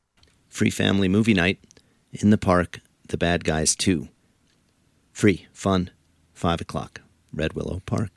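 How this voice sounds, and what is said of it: Strained, fading hoarse voice. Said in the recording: “I seem to be losing my voice.”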